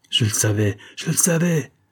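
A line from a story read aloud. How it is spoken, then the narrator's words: Energetic exclamation. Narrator (French): s'écria Fourmore avec énergie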